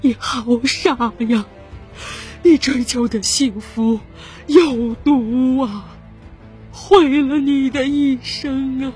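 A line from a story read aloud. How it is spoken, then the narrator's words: Sobbing. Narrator (Chinese): 田丽娜和张文兴哭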